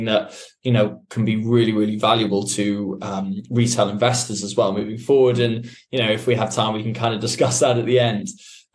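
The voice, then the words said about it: London English accent. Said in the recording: “We are based in London, um, as you could probably tell maybe from the accent.”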